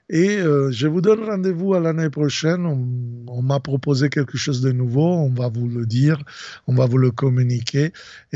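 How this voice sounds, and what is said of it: Italian accent speaking French. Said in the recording (French): “mon accent un peu impeccablement italien”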